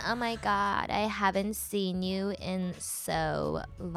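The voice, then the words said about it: Put-on Valley Girl accent. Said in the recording (Chinese): “别人都说我有那个 Valley Girl 的口音”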